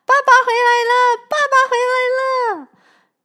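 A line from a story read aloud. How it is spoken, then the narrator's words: Loud shouting, several voices. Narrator (Chinese): 妈妈，哥哥姐姐大声的叫着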